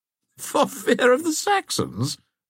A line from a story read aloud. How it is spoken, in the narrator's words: said Brassy, laughing